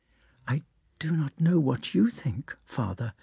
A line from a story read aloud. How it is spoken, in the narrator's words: whispered the princess